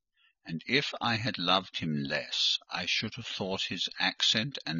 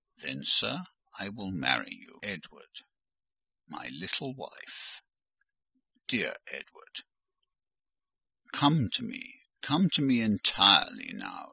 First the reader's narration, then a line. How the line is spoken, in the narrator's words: said he, and added in his deepest tone, speaking in my ear as his cheek was laid on mine